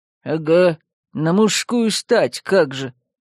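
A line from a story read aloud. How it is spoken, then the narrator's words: Grumble. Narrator (Russian): проворчал Яр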